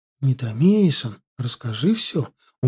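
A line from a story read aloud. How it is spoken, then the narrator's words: Pleading. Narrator (Russian): умоляющим тоном попросила Джоан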